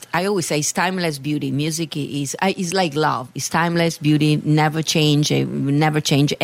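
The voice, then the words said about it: Italian accent. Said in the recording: “I have this Italian accent ... you never heard it with my accent”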